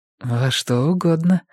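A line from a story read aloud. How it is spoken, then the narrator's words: Forced smile. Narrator (Russian): сказала Мия, выдавив улыбку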